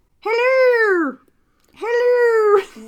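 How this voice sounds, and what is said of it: Squeaky sick-bird-like impression voice. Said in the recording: “it sounds like a sick bird ... imitating Jerry Seinfeld imitating a belly button”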